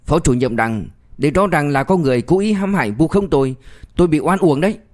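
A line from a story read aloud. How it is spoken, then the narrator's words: Desperate loud protest. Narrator (Vietnamese): Vũ Khánh Sinh chỉ biết liều một phen, lớn tiếng nói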